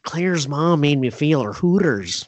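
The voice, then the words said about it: Imitates another person's voice, badly. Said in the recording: “bad Owen Wilson impression”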